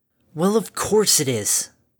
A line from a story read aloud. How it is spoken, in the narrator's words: Harmony snarled